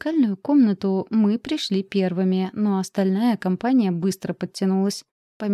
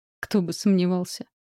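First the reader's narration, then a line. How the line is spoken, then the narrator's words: Wry snort. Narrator (Russian): хмыкнул он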